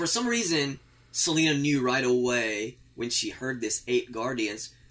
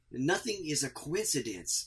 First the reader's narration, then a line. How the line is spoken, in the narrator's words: she said